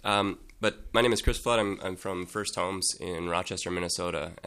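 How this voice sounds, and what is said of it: Sick, strained voice. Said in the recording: “Forgive me, I'm sick. I'm not sure how well my voice is going to work here.”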